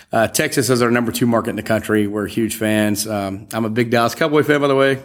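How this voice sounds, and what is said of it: Southern American accent. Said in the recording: “I'm Southern, if you can't tell from the accent.”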